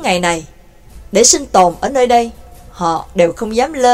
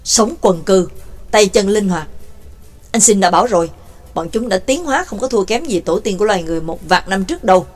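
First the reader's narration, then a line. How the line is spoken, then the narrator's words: Low whisper. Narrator (Vietnamese): Nhạc Dương thấp giọng thì thào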